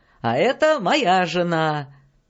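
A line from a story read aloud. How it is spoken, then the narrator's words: Shouting. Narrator (Russian): крикнул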